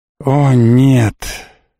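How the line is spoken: Helpless drawn-out voice. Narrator (Russian): беспомощно протянул он

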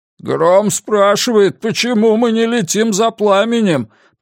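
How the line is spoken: Moaning. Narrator (Russian): простонал Гутана

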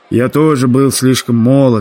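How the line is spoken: Sighing American man. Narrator (Russian): вздохнул американец

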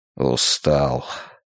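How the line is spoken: Barely audible mutter. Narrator (Russian): чуть слышно пробормотал он

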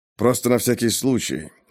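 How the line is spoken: Low-voiced question. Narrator (Russian): вполголоса спросил Пейнтер

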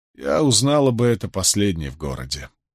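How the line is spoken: Dry. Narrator (Russian): сухо сказала Рэйчел

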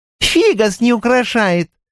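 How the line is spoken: Shouted. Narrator (Russian): крикнула первая близняшка

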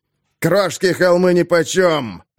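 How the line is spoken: Growl. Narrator (Russian): зарычал Крошка

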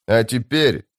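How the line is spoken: Loud, for all to hear. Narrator (Russian): сказал Калам так громко, чтобы все морпехи услышали

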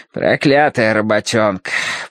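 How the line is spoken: Grumbling. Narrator (Russian): проворчал тот, что с мешком

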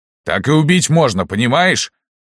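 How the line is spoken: Shouting out. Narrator (Russian): выкрикнул Лаврентий Палыч

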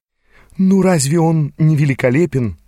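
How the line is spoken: Sighing woman. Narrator (Russian): вздохнула стоявшая рядом со мной женщина

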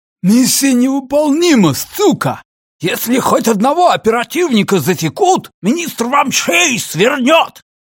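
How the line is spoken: Shouted from back seat. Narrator (Russian): крикнул Ричи с заднего сиденья

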